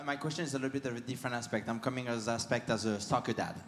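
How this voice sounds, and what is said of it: French accent. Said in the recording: “you can hear my accent. I'm originally from France.”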